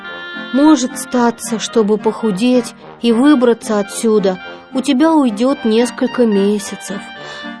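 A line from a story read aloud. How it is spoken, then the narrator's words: Sighing. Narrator (Russian): вздохнул он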